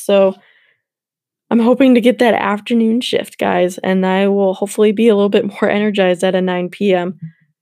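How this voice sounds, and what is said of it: Slightly raspy, tired voice. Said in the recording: “my voice is a little bit raspy”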